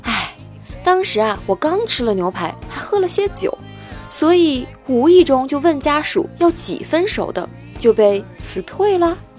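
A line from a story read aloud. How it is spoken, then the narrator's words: Sighing. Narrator (Chinese): 朋友叹口气说道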